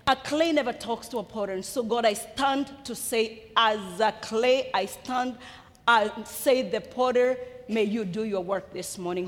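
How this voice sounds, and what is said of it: Thick accent. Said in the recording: “I have a thick accent ... this British accent will never go anywhere”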